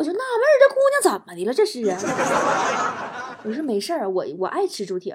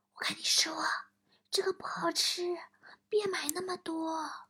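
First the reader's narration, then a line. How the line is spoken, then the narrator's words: Whispered in ear. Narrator (Chinese): 他又小声趴我耳朵边说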